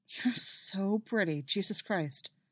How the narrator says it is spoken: he mutters, and he's only half aware that he says it

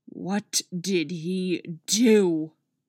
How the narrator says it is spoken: Artemis growls

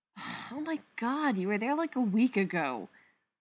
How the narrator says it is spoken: Spencer sighs

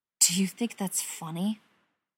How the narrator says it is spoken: Keely hisses in his ear

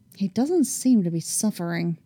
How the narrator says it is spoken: she muttered petulantly

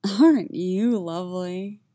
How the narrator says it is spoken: he rumbles contentedly

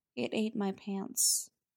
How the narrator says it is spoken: says, in a small, quiet voice

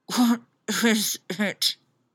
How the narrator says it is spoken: She muttered, burying her face in the pillow

